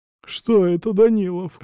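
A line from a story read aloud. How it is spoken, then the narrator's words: Whimpering nobleman. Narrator (Russian): хныкал граф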